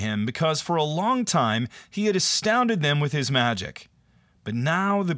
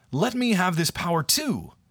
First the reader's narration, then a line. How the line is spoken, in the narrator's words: exclaimed